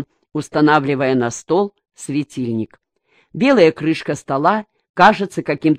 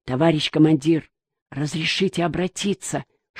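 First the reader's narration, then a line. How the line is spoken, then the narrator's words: Whispered question. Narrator (Russian): шепотом спросил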